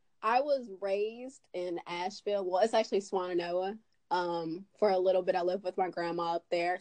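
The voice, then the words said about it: Slight Southern twang. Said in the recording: “You have a little twang to your voice.”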